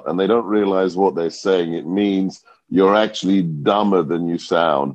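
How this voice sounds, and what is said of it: British accent. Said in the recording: “he's got a British accent”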